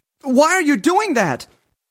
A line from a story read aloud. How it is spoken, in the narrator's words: he yelled